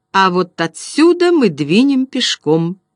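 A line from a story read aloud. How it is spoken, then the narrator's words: Cheerful. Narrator (Russian): весело сказал он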